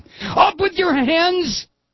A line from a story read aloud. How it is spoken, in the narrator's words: yelled a savage voice